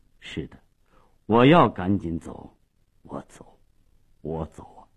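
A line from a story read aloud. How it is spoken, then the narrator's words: Low hoarse voice. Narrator (Chinese): 马利奇沉默了半分钟，最后用低沉沙哑的声音说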